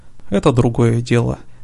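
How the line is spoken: Calm. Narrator (Russian): все так же спокойно сказал Лейкил

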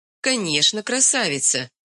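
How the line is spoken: Laughing confirmation. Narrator (Russian): смеясь, подтвердила Онюшка

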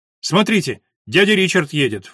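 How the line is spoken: Boy's sudden shout. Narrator (Russian): вдруг крикнул мальчик

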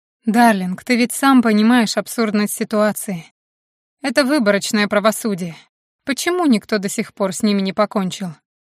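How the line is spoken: Quiet reply. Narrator (Russian): Макс тихо ответил

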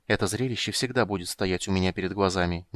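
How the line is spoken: Quiet speech. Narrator (Russian): негромко сказала Крисания

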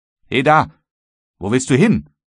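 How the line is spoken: Calling out. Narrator (German): rief der Obersteuermann

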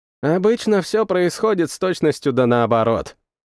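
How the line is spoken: Wry snort, mage. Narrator (Russian): хмыкнул маг молний

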